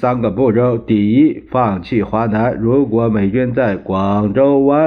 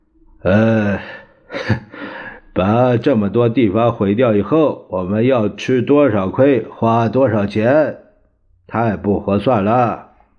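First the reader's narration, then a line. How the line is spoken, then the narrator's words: Rueful, wry. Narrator (Chinese): 蒋介石苦笑着说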